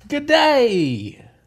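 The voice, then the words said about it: Put-on Australian accent. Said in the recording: “I can get the Australian down pat”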